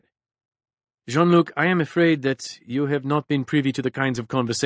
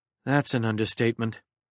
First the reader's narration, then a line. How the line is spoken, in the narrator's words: muttered Clancy